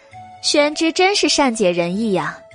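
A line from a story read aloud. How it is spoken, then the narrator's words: Laughing. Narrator (Chinese): 白姬…笑道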